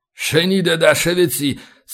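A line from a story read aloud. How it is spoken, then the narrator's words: Cursing through teeth. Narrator (Russian): Судя по интонации, явно выругался сквозь зубы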